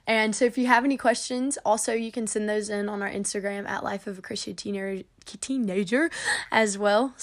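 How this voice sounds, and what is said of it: Slurred, very fast speech. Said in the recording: “my words are super slurred and I feel like I'm talking so fast right now”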